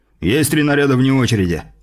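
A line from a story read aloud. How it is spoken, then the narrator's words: Barked in unison. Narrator (Russian): разом гаркнули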